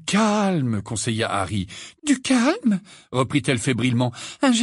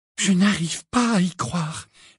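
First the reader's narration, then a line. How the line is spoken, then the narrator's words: Unsteady voice. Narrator (French): dit Hermione d'une voix mal assurée lorsqu'elle fut certaine que Hagrid ne pouvait plus les entendre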